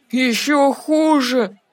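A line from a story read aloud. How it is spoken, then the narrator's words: Groaned. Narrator (Russian): простонал Треверс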